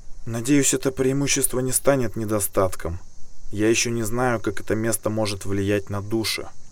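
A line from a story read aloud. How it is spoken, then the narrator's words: Quiet reply. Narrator (Russian): тихо ответила Ксандра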